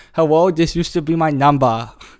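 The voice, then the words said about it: Put-on Asian accent. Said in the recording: “I'm going to do an Asian accent.”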